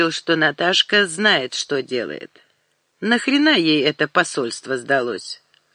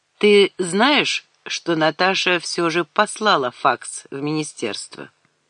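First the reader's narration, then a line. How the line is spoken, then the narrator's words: Calm. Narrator (Russian): Алекс спокойно сказал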